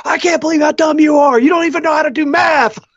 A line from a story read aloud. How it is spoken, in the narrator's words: The guy that runs Astronomy Live, he'll start yelling on the air